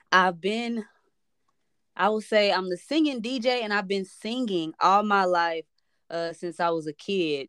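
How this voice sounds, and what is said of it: Slight Midwestern and Southern twang. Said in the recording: “I got a little Midwest and Southern twang in me”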